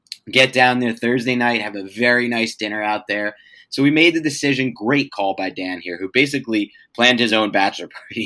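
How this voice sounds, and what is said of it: Hoarse, strained voice. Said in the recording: “I feel like I'm losing my voice”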